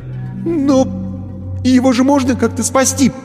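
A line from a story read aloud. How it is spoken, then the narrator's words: Timid babbling. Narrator (Russian): пролепетал он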